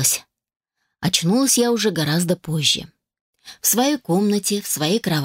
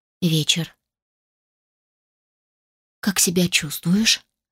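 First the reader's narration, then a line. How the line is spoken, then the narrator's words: Deceptively sweet, ominous mother. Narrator (Russian): Спросила матушка обманчиво ласковым тоном, который не предвещал ничего хорошего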